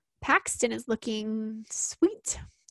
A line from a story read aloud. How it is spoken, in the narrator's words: Aspen purred